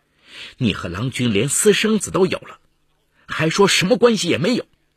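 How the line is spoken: Furious. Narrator (Chinese): 他脑袋一热，怒火中烧

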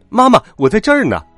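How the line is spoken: Playful shout. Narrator (Chinese): 他 调皮的喊

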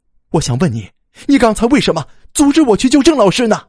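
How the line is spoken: Sudden, breaking silence. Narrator (Chinese): 一直沉默的吴楠突然出声了

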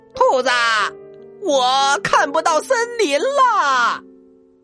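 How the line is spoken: Shouting. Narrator (Chinese): 他也大喊着

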